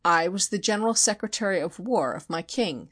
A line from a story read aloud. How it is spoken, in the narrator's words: said he